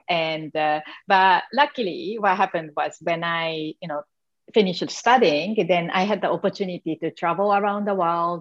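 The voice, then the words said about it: Japanese accent. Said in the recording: “you can tell, you know, from my accent that I came from Asian background... I'm from Japan”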